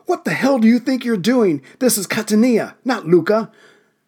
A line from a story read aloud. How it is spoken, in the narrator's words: crewman Johnny Spires yelled